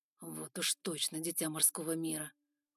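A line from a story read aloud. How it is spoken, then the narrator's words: Grumbled. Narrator (Russian): буркнул Эван Байринг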